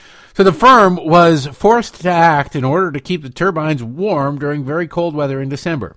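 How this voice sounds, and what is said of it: Usual voice. Nothing is said of it.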